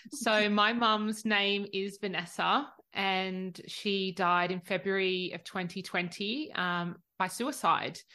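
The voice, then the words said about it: Australian accent. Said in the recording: “I'm the Aussie.”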